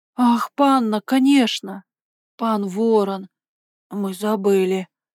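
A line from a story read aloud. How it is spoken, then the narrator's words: Breathless, almost apologetic. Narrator (Russian): выдохнул Шушек, почти извиняясь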